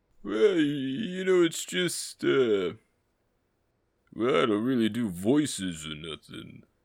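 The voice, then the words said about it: Sylvester Stallone impression. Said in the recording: “Sly ... whatever it is you do when you try to speak English.”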